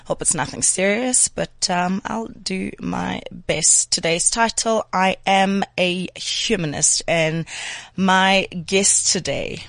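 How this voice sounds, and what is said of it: Slightly strange, sick-sounding voice. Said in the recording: “my voice sounds a little bit strange, I think I'm coming down with something”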